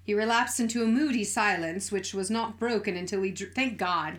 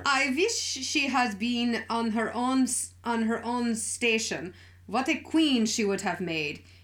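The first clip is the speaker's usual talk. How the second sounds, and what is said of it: Bad put-on German accent. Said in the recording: “my horrific German dialect”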